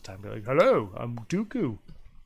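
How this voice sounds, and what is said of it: Imitates Count Dooku character voice. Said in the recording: “That's my Dooku impression.”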